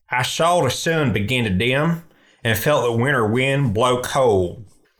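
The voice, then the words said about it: Put-on country accent. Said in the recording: “I'm going to read it in a country accent.”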